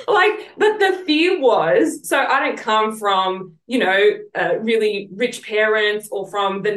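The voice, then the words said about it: Southwest Sydney Australian accent. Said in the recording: “no one wants to listen to me because of my accent ... come from southeast Sydney or southwest Sydney ... I have developed this accent”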